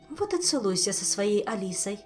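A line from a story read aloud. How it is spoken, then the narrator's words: Angry snap. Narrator (Russian): зло бросила Эльвира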